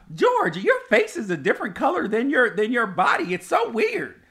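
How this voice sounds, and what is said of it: Mocking old grandma-like voice. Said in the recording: “Who says it like that? ... You make me sound like a grandma.”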